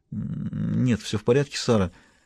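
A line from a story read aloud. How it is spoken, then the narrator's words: Absent-minded mumble. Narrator (Russian): рассеянно пробормотала Дэви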